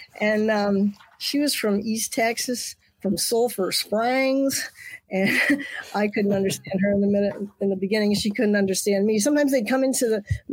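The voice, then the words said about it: New York accent. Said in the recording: “just to hear my accent. ... you can still recognize I'm a New Yorker”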